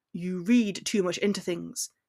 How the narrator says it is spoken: he growled defensively

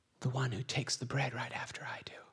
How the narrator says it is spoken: Jesus quietly says

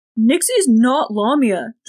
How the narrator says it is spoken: Jordan all but shouted

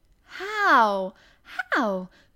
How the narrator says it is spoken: cried Mary, forgetting to be careful

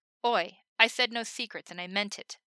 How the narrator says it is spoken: Levi snapped

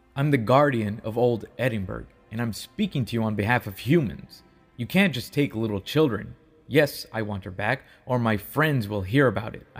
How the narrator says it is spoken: snapped as I stared him down

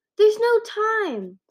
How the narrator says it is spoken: Starfleet yelled

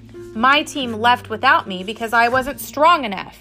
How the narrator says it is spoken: Oscar snapped

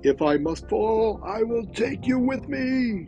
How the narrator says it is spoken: he shouted

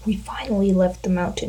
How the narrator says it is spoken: I murmured

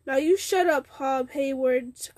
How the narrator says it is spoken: cried several of the others

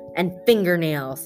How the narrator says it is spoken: Alan quickly added

